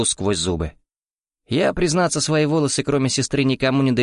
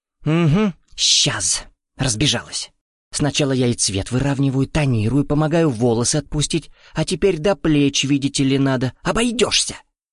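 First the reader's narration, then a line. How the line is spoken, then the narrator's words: Indignant whisper. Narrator (Russian): Набрасывается возмущенным шепотом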